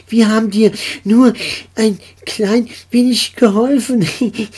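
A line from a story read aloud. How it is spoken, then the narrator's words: Nasal, laughing. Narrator (German): sagte Pellini durch die Nase und musste lachen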